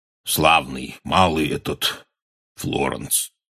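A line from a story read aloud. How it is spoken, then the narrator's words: Hoarse. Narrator (Russian): хрипло сказал он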